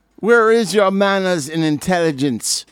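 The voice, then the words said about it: Deliberately bad put-on Jamaican accent. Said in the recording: “my worst Jamaican freaking accent I could possibly pull out”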